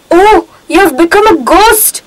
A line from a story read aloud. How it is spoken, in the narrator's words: the man gasped and cried